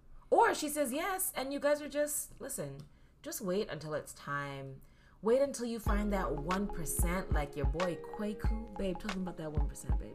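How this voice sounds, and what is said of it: Smooth radio-host voice. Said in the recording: “This guy has a radio voice on.”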